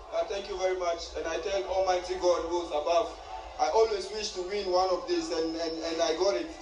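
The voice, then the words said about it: Speaks with a noticeable accent. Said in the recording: “if you didn't hear because of his accent,”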